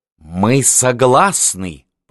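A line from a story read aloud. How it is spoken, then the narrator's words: Hiss. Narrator (Russian): прошипел он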